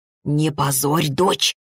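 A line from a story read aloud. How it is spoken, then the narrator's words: Hissing, mother. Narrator (Russian): снова прошипела мать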